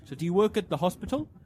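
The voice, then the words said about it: Half-hearted imitation of driver's accent. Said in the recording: “I'm not going to do the accent. ... kind of did the accent.”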